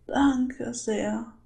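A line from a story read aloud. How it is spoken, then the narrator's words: Frightened old woman sobbing. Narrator (German): brachte die alte Dame noch immer erschrocken und schluchzend hervor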